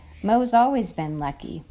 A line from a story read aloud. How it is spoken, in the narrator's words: Lavender said